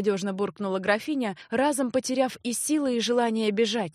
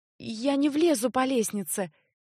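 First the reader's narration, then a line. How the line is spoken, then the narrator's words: Uncertain mutter. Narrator (Russian): еще неуверенно пробормотала Леа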